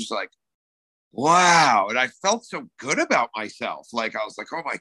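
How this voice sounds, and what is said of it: Usual voice. Nothing is said of it.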